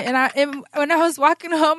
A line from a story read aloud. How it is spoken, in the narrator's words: I laughed